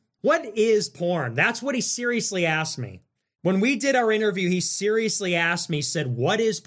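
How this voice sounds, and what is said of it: Usual voice. Nothing is said of it.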